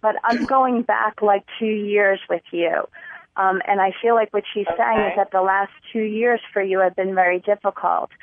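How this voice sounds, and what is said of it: Noticeable foreign accent. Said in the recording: “I have an accent. I'm sorry. I'm told that a lot.”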